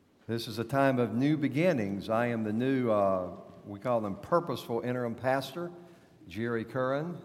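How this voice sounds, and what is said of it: North Carolina Southern accent. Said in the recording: “You know from my accent that I was born in North Carolina”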